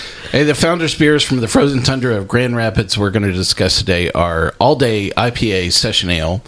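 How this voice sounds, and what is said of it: Usual voice. Nothing is said of it.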